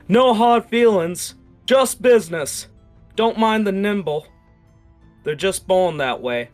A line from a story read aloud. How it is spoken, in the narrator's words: an echoing shout